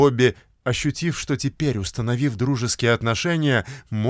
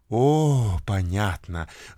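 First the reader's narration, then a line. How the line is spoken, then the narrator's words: Enchanted breathy exhale. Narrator (Russian): выдохнула очарованная миссис Ривингтон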